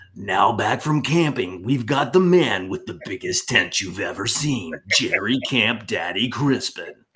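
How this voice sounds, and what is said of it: Movie trailer announcer voice. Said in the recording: “in my movie voice ... not my mafia boss voice. My movie like”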